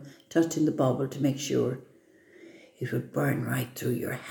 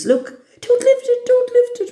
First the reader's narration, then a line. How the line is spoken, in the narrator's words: Robin screamed